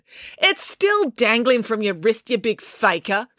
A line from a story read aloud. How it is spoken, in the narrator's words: snapped April